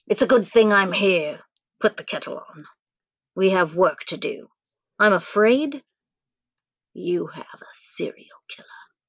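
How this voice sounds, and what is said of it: Inconsistent put-on accent. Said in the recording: “how many times my accent changed in that”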